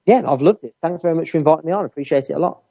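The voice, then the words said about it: Birmingham accent. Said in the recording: “Birmingham accent”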